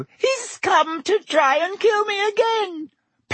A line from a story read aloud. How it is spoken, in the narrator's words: Pettigrew squeaked suddenly